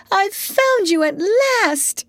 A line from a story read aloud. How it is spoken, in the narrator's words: she cried